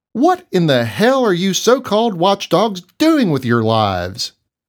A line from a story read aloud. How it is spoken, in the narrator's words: yelled